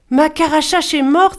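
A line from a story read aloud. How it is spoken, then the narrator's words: Exclamation of sudden realization. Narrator (French): s'écria Giranché, comprenant tout à coup pourquoi il lui avait posé toutes ces questions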